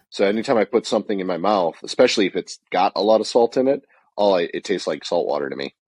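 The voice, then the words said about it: Wonky, unwell-sounding voice. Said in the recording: “obviously you can hear my voice is still wonky”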